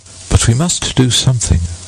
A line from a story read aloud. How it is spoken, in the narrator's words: said Anderson